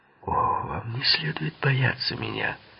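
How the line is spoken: Muttered with candy in mouth. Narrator (Russian): пробормотал Литти, положив карамельку в рот

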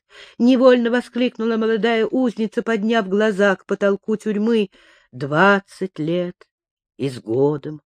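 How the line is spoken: Quiet correction. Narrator (Russian): тихо поправила ее Миланья

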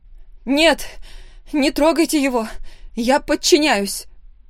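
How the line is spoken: Desperate scream. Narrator (Russian): В отчаянии закричала я

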